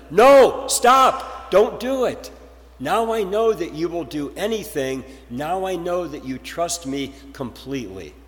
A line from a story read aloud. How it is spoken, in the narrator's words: God shouted from heaven